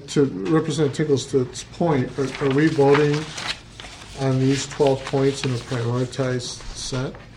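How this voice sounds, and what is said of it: Tired, low voice. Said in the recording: “I'm tired and my voice is kind of low today.”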